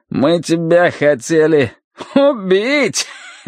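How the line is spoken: Finishing with a fat chuckle. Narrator (Russian): договорил Джек и жирно хохотнул

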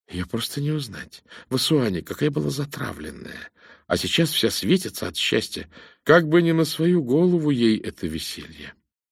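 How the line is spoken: Said quietly. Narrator (Russian): миссис Аллертон сказала негромко

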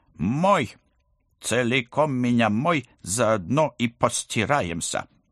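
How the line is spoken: Menacing demand. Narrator (Russian): грозно потребовала

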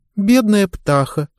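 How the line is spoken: Sigh. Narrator (Russian): вздохнула Таппинс

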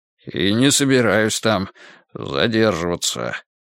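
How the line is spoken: Muttering. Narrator (Russian): пробормотал седоволосый

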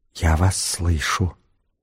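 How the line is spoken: Very faint whisper. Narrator (Russian): Тихо-тихо-тихо дверь прошептала

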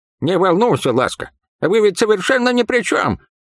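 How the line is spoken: Laughing. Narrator (Russian): рассмеялся Ктатак

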